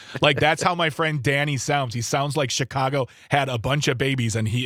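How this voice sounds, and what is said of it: Usual voice. Nothing is said of it.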